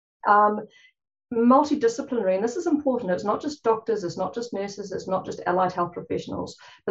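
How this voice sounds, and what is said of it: Fast speech, New Zealand accent. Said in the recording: “I'm talking a bit fast. It's a jolly Kiwi accent too”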